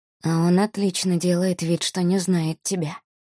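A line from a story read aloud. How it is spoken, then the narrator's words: Whisper. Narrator (Russian): прошептал Рианон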